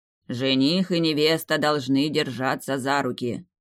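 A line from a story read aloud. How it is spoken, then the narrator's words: Grumbled. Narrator (Russian): проворчал жрец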